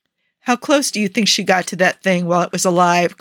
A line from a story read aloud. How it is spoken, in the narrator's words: Clint asked